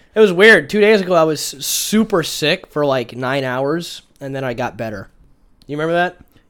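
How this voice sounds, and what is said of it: Congested, sick-sounding voice. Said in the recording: “You sound sick still. ... it's still got, like, the mucus in your throat and it makes you sound sick”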